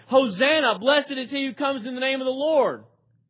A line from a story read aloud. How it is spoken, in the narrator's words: They were shouting